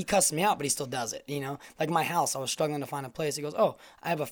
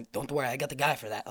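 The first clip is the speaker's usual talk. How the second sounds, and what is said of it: Put-on Italian accent. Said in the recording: “Everybody's Italian accent.”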